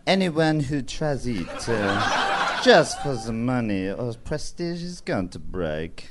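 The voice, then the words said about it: Put-on French accent. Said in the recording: “in a French accent, please ... Yeah, I can do French.”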